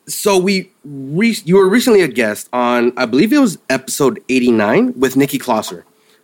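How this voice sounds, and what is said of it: Smooth radio-style voice. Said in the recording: “I really love your voice. It's a very, like, you know, radio voice”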